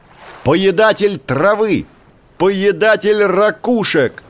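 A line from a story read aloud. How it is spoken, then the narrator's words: Shouting even louder. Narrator (Russian): Котик закричал еще громче прежнего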